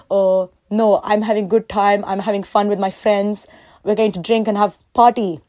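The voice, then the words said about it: Put-on accent for dad's voice. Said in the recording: “my dad does not speak like that. I'm just adding the accent because it just makes the story a bit more fun”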